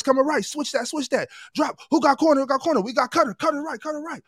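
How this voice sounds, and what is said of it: Yelling. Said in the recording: “I'm yelling”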